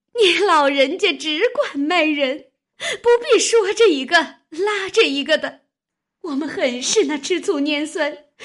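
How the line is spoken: Crying through a window. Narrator (Chinese): 金贵听了这话，便隔着窗子往外哭道

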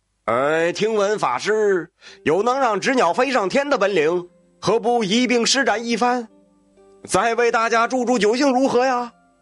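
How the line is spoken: Loud drunken heckling. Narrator (Chinese): 又有醉酒者大声起哄道

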